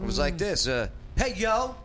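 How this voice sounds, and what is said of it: Put-on Detroit accent. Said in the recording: “I even put on a Detroit accent, you know, to like, I'm one of them.”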